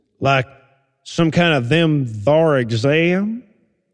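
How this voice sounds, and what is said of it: Put-on Southern US accent. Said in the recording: “I was wondering about the southern accent.”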